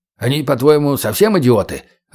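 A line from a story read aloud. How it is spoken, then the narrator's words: Snapping retort. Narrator (Russian): огрызнулся чекист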